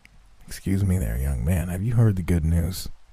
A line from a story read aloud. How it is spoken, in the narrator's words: His crusty lips had to pry themselves apart as he muttered the question